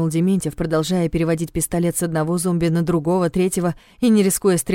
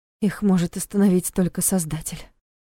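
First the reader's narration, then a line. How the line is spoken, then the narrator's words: Whisper from behind. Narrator (Russian): прошептала позади Лиля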